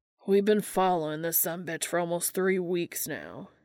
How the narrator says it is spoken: groaned

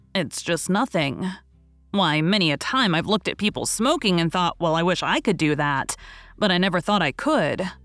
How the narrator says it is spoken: said Tom

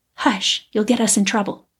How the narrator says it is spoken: she whispered

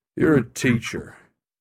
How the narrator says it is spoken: Cronus sneered

